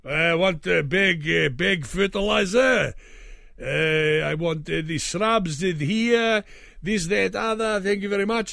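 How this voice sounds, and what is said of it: Generic European accent. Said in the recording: “I'll just do a generic European accent.”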